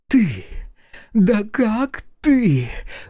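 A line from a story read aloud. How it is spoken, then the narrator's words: Breathless furious rasp. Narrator (Russian): задыхаясь от гнева, прохрипела она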